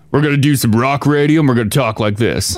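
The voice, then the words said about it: Put-on deep manly radio voice. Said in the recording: “I'm going to talk down here because I know she likes a manly voice, a deep voice.”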